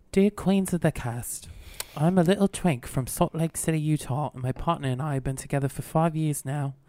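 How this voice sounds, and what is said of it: Put-on British accent. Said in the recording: “I've been practicing my British accent, and I'm going to read the whole question.”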